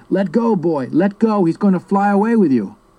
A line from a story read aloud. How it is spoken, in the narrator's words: I heard him yelling